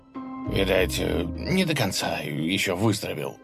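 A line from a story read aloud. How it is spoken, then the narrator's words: Confused mumble. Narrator (Russian): растерянно пробормотал князь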